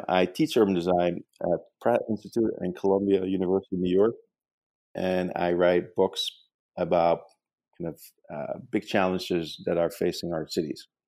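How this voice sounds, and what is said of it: Dutch accent. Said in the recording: “as you can probably tell from my accent, I'm not from uh, the United States. I actually grew up in the Netherlands”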